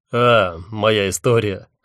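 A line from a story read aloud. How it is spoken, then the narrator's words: Amused snort. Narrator (Russian): хмыкнул он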